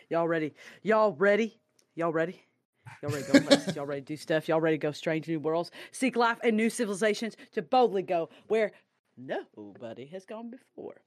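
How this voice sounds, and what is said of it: Put-on drawling y'all accent. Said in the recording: “There's an accent. That's another white people accent.”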